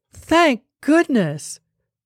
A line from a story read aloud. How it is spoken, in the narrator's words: cried at so pathetic a part of his story